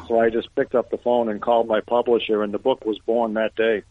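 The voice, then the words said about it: Boston accent. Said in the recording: “you seem to have a Boston accent or an accent from the Massachusetts.”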